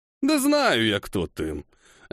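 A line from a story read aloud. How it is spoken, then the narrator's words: Lazy drawl. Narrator (Russian): Лениво протянулся Кигами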